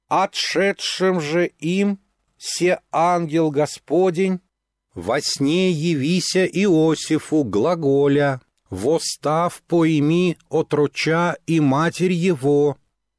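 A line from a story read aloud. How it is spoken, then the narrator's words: Loud chanting. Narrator (Russian): Саша начала громко нараспев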